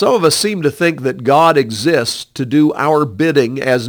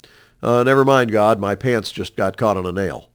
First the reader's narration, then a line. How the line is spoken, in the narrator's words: Seeing that he's safe, the carpenter mumbles